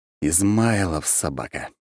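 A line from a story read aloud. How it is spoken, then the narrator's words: Grumbling. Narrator (Russian): проворчал я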